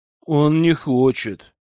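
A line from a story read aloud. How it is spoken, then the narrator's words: Sighing. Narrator (Russian): вздохнула она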